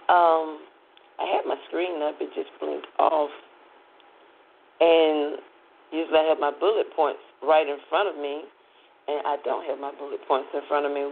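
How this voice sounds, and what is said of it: Raspy, hoarse voice. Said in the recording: “my raspy voice ... my throat is kind of sore. One reason why it's raspy.”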